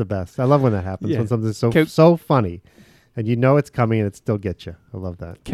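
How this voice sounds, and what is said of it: Usual voice. Nothing is said of it.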